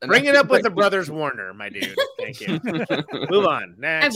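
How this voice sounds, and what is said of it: Usual voice. Nothing is said of it.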